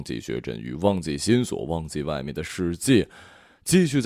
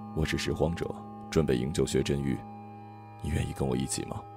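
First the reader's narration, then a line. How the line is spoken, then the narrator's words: Woman's low voice. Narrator (Chinese): 一个三十几岁的女人，低声说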